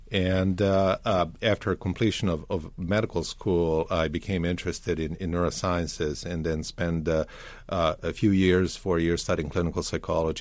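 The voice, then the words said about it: Slavic accent, Serbian. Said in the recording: “Is your accent – Russian? ... It is Slavic, but not Russian.”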